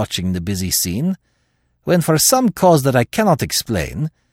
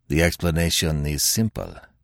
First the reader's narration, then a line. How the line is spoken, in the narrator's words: said Gonzales quietly